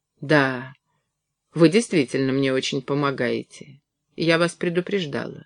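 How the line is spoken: Indifferent. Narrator (Russian): сказала она безразличным голосом

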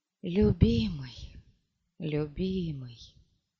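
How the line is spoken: Whispered. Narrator (Russian): прошептав

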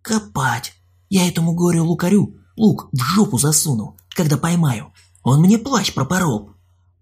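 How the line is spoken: Distant whisper. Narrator (Russian): чей-то шепот

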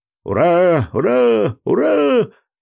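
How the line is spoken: Sailors shouting. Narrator (Russian): закричали матросы

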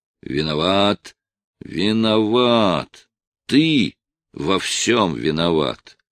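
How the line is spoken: Muttered through gritted teeth. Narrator (Russian): приговаривал сквозь зубы

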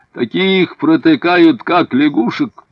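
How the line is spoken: Loud. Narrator (Russian): Один из офицеров по имени Фессар громко сказал

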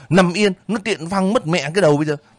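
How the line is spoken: Shouted. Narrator (Vietnamese): Năm hét lên

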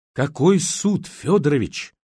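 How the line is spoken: Trembling voice question. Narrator (Russian): дрожащим голосом переспросил Ярослав

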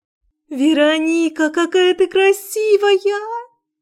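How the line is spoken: Squealed. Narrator (Russian): завизжала Марина

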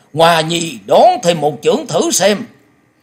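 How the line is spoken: Loud competitive shout. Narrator (Vietnamese): lòng háo thắng của thiên âm quái tẩu chợt bùng dậy, lão hét to

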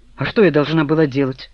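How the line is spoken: Snorted. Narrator (Russian): фыркнула Лена

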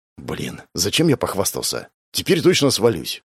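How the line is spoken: Whispered. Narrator (Russian): шепнул

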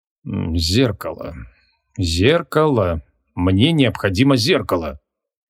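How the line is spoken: Muttering. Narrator (Russian): забормотал он

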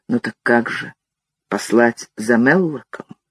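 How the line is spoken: Quiet. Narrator (Russian): Дик сказал негромко

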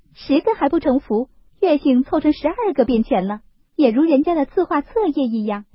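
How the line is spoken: Laughing. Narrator (Chinese): 湘云又笑道

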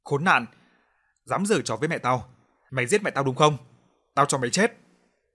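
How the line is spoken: Loud shout. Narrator (Vietnamese): Nó hét lớn

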